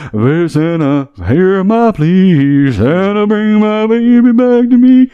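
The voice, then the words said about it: Sung imitation of another person's voice. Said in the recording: “my only Elvis impersonation”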